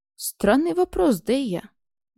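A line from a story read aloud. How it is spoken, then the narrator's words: Grim chuckle. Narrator (Russian): мрачно усмехнулся Коршун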